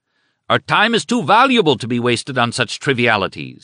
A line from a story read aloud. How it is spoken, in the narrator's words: he shouted at Chamberlain